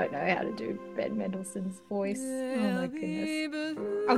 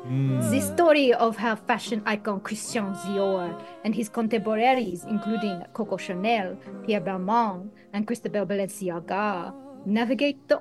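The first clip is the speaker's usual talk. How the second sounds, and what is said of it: Juliette Binoche impression, French-accented. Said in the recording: “I'll give you a little bit of Juliette Binoche”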